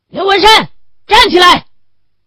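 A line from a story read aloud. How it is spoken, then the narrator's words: Roar. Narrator (Chinese): 袁干事吼了一声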